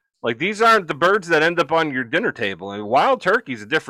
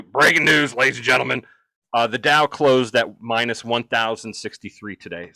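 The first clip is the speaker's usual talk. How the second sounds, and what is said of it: Alex Jones impression. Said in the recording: “in my Alex Jones accent, or his voice, the best I could do.”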